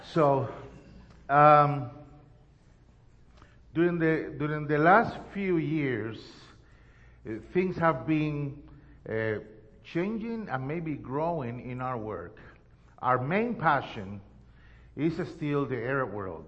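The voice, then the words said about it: Strong Spanish accent in English. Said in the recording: “when I destroy your language ... forgive my Antonio Banderas accent”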